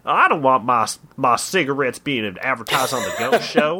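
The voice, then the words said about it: Put-on Southern accent. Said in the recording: “I'm doing a Southern accent ... It's just a fun accent to do.”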